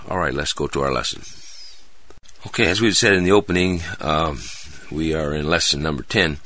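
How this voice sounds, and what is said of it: Hoarse, dry-throated voice. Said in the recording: “I sound a little hoarse this morning ... I had a cold earlier this week ... I still hang on to the throat thing ... I have a dry throat”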